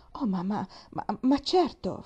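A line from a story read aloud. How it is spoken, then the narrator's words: Mumble. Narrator (Italian): farfugliò la signorina Polly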